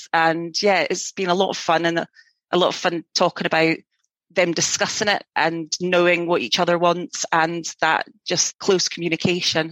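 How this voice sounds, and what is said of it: Scottish accent with a lilt. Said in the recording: “I just love your accent. ... I'm like sitting here mesmerized listening to you. ... We Scottish lilt.”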